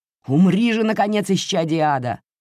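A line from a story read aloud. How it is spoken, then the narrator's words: Exclamation. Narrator (Russian): воскликнул Людвиг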